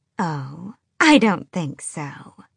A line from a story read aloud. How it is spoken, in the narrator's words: someone purred from the open doorway